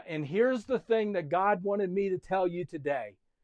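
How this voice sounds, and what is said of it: Yelling preacher voice. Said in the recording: “I'm yelling now.”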